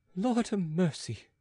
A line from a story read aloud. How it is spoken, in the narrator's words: sighed Pitou